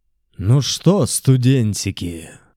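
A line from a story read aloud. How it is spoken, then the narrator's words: Sinister question. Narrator (Russian): Зловещим тоном спросил я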